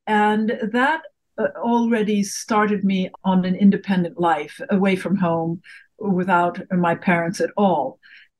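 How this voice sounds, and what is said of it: Faded British accent. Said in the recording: “I have this strange, faded British accent.”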